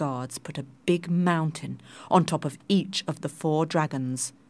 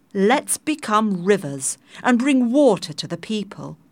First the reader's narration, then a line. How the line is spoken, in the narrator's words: the pearl dragon shouted